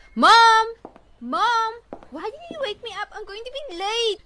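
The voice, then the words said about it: Shouting. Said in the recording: “Stop shouting!”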